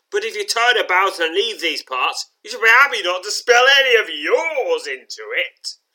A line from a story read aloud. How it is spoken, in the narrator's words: shouts Bernick